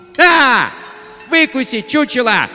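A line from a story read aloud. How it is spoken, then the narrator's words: Screaming. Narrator (Russian): завопила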